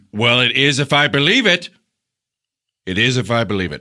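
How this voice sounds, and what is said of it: Raised, loud voice. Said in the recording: “raise my voice ... You really raised your voice.”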